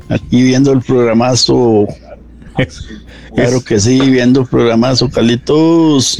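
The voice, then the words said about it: Sing-song Cartago Costa Rican accent. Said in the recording (Spanish): “Ese acento es Cartago, mae... Eso es puro Cartago... ese cantadito es Cartago”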